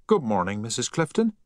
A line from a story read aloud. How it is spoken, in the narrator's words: said cheerfully